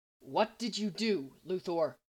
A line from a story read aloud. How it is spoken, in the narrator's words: He asked, his voice tight with rage